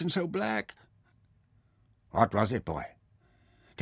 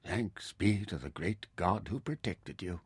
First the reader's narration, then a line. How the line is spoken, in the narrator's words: Taita murmured